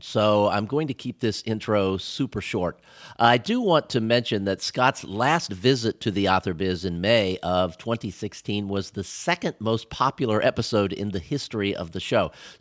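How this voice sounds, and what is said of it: Congested voice from a cold. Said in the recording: “hear it in my voice, but I've got a little bit of a cold,”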